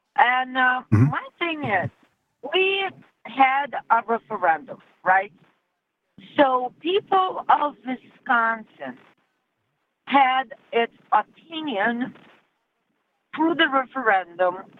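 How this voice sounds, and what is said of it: Non-native English accent. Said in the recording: “you can hear my accent, so I'm an immigrant”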